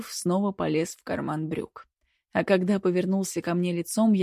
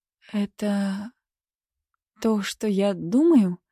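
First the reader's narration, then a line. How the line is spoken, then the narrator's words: Hoarse question. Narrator (Russian): хрипло спросила я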